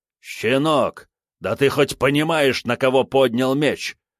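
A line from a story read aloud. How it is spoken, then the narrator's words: Warrior's growl. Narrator (Russian): рыкнул новый воин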